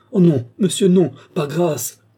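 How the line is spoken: Desperate exclamation. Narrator (French): s'écria Gilbert

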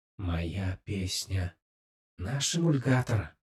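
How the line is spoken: Whispered in unison. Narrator (Russian): прошептала Навани в унисон

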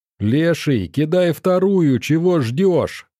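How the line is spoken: Yell. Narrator (Russian): завопил

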